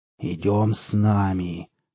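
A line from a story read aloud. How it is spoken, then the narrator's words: Guttural rasp. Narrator (Russian): гортанным голосом хрипел он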